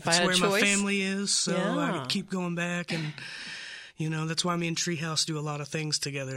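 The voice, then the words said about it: Slight Carolina drawl. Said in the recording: “I'm beginning to hear that little Carolina drawl in there.”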